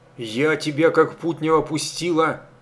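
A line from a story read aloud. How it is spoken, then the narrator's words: Hissed. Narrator (Russian): зашипела санитарка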